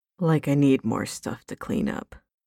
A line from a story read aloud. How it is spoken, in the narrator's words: Crowley grumbled under his breath